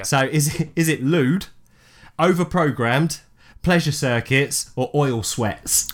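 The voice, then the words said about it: Noticeable accent. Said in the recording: “As in F-A-U-L-T is my accent, sorry.”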